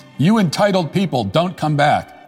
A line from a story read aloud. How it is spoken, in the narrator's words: he literally jumps and shouts